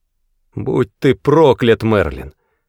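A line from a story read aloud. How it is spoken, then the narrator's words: Growled reply. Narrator (Russian): Прорычал в ответ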